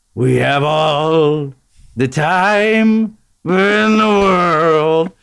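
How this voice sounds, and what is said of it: Sung impression of a sultry singing voice. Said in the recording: “that sultry pipes of his, that's a terrible impression of him ... Oh, that's a pretty good Louis. ... Oh, that was a good one.”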